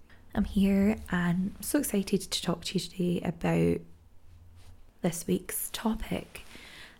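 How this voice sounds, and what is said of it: Croaky voice. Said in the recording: “I am just getting past a pretty nasty chest infection, so sorry if my voice is a little bit croaky”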